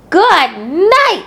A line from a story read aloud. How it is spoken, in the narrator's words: screamed